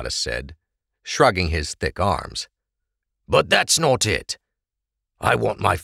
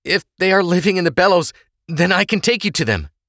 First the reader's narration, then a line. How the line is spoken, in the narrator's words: Trest Oleg said, sitting up excitedly